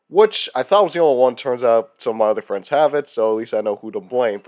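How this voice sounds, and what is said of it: Sick-sounding, affected voice. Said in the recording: “Pardon my voice. I have probably the weirdest cold, sickness”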